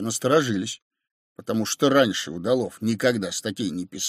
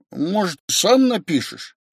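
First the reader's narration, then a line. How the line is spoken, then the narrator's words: Uncertain. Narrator (Russian): сказал Удалов неуверенно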